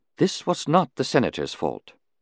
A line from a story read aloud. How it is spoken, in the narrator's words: Shumai put in quietly